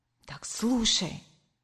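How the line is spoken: Began whispering. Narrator (Russian): зашептала я

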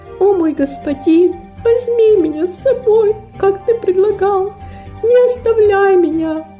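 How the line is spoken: Tearful sobbing speech. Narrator (Russian): Девочка сквозь слезы, всхлипывания проговорила

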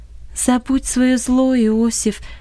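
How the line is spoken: Calm but insistent. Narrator (Russian): сказала Долорес спокойно, но настойчиво

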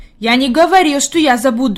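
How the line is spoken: Angry. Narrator (Russian): Питер сердито сказал

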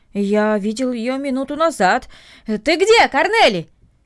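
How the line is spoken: Shouted toward the house. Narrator (Russian): крикнул он в сторону дома

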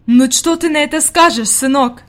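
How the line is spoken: Exclamation. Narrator (Russian): воскликнула она

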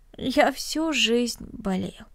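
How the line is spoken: Sad smiling voice. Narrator (Russian): печально улыбнулся Денис

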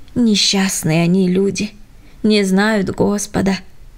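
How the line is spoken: Father's sigh. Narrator (Russian): вздохнул папа

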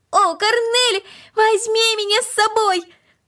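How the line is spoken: Shouting ever louder. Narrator (Russian): Макс кричал все громче и громче

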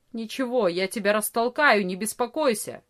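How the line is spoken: Angry grumble. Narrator (Russian): сердито проворчал Ария

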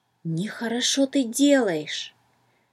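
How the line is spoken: Whisper in the ear. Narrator (Russian): Словно шепнул кто-то на ухо

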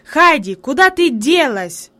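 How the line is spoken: Sudden angry shout. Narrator (Russian): вдруг сердито крикнул он

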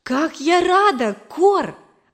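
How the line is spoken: Exclamation. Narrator (Russian): воскликнула я

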